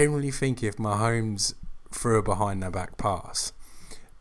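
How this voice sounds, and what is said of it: Usual voice. Nothing is said of it.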